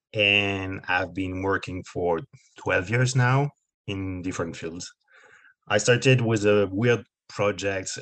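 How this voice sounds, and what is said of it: French accent. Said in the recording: “I live in France, as you can hear in my weird accent”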